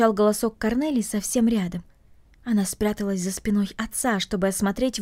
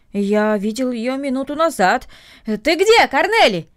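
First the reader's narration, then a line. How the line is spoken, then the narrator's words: Shouted toward the house. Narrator (Russian): крикнул он в сторону дома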